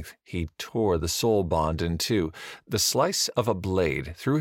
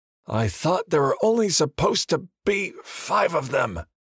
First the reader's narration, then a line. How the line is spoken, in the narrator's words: grunted his friend Wilder